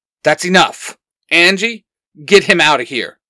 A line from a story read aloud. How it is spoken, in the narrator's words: Xander snaps